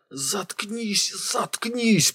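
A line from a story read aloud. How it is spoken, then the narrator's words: Hissing. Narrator (Russian): прошипел Койн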